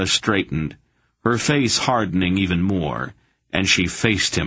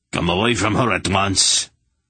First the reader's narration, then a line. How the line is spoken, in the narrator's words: Rog snapped at the child